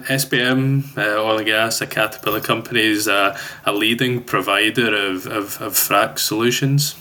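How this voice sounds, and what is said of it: Scottish accent. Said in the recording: “that lovely accent ... grew up in Glasgow in Scotland ... I'm still holding on desperately to that accent”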